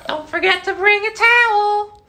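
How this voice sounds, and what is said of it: Towelie from South Park impression. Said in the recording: “Towley from South Park ... that was good ... spot on”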